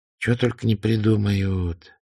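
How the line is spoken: Sigh. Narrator (Russian): вздохнул Лигур

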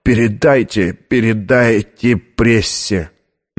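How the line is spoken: Hoarse whisper. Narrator (Russian): хрипло прошептал

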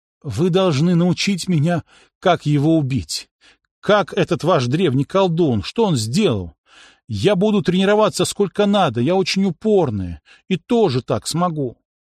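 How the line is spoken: Bitter sobbing through tears. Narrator (Russian): Принцесса снова расплакалась горько, навзрыд, но сквозь слезы сказала

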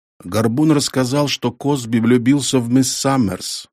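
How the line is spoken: Plain. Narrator (Russian): ответил сержант

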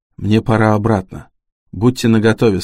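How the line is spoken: Plain. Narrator (Russian): сказал Харпер

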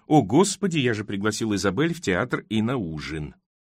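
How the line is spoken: Horrified mutter. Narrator (Russian): пробормотал Тоби с ужасом

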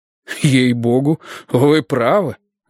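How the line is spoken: Exclaiming. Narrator (Russian): воскликнул шериф

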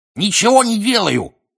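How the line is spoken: Cackled. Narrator (Russian): прокудахтал Пивз

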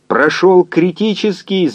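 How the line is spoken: Yelling, then crying. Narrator (Russian): заорал физик и заплакал

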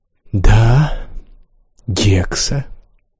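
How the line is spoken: Soft. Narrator (Russian): мягко сказал пассажир

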